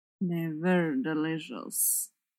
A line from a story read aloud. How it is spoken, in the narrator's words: murmured, eyes heavy